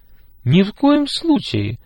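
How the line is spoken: Agitated. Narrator (Russian): взволнованно сказала Дина

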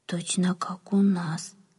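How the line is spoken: Whispered. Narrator (Russian): прошептал кто-то

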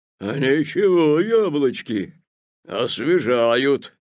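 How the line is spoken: Roared. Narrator (Russian): проревел он

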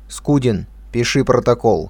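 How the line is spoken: Commanding tone. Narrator (Russian): начальствующим тоном произнес Котов

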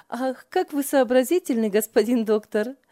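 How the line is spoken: Hearty laughing. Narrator (Russian): от души смеялась Ева над братом

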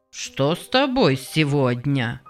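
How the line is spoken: Grumbling old woman. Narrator (Russian): проворчала старуха Потц

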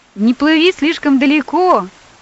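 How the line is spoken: Father shouting. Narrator (Russian): крикнул папа

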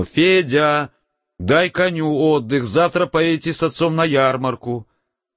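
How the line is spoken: Mother calling out. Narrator (Russian): мать … крикнула

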